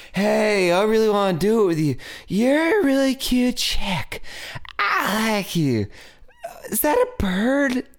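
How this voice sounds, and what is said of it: Stoner character voice. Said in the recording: “That's your stoner person... that's my stoner character”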